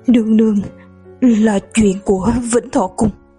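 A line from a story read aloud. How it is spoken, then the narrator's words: Trembling voice. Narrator (Vietnamese): Tăng Chi run rẩy nói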